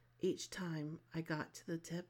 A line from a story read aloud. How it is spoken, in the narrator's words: he moaned